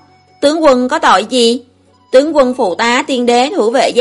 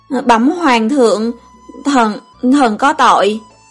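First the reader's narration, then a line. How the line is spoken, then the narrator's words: Old man's tearful trembling voice. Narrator (Vietnamese): Tư Đồ môn chủ run rẩy đứng dậy, lão lệ tung hoành nói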